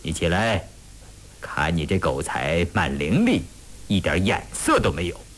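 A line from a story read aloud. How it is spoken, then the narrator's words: Smiling. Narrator (Chinese): 笑了笑说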